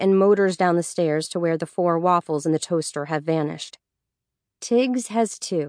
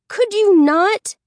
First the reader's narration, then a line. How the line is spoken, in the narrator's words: yells at him